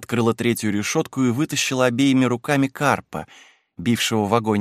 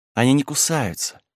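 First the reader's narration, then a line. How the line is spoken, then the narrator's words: Whisper with soft laugh. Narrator (Russian): прошептала с тихим смехом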